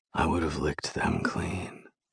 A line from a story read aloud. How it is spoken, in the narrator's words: he whispers into my ear